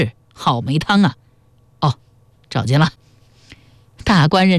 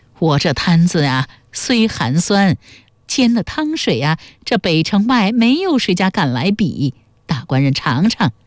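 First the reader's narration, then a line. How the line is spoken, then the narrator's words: Smiling old woman. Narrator (Chinese): 阿婆笑着递过来说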